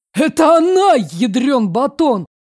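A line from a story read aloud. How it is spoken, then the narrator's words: Exclamation. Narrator (Russian): воскликнул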